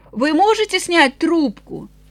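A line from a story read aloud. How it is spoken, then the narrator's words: Shout. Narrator (Russian): Эленор крикнула ему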